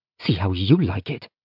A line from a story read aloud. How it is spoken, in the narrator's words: she muttered